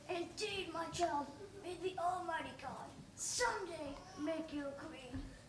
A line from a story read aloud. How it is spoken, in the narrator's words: the beggar with a passionate gesture of affection, he whispered